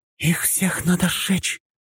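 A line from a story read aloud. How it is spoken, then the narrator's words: Whisper. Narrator (Russian): прошептала Синди, и на ее лице появилось выражение искренней ненависти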